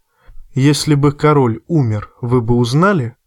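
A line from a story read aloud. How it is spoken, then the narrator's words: Plain. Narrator (Russian): спросил Джон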